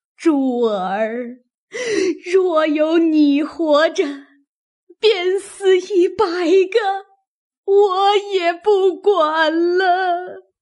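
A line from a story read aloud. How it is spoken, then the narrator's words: Wailing and crying. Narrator (Chinese): 因哭出苦命而来，又想起来，便叫着哭道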